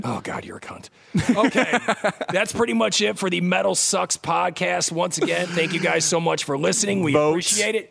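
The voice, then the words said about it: Scraggly Ohio-accented voice. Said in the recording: “your scraggly Ohio voice”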